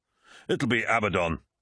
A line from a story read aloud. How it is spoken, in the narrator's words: said Torgadon